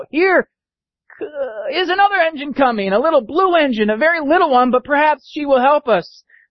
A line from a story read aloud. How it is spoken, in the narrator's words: the little train was very, very sad, and the dolls and toys were ready to cry, but the little crying clown called out